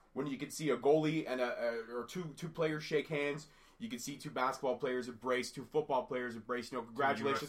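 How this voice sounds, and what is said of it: Slightly raspy voice. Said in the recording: “Excuse my voice, I'm a little raspy, fighting a cold”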